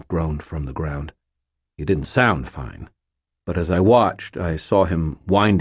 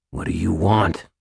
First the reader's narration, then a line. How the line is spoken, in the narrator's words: Aristides growled